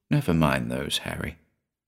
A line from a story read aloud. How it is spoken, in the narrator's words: he said gently